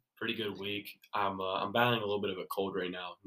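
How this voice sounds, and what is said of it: Stuffy-nosed, slightly rough voice. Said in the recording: “Nose is a tad stuffy. ... If I sound a little rough”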